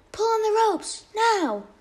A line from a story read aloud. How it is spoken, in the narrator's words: Maui suddenly yelled to his brothers